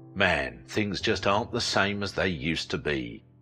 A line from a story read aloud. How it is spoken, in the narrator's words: sighed